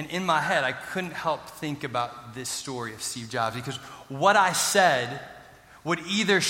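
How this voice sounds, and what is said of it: Usual voice. Nothing is said of it.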